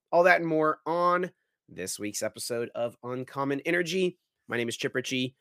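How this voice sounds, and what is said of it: Slightly hoarse voice. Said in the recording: “A little hoarse this week. I was a little sick this past week”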